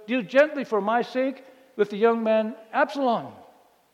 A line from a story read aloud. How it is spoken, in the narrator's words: David shouted